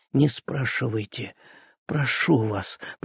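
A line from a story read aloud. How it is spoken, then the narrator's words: Dejected voice. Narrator (Russian): проговорил Ганс упавшим голосом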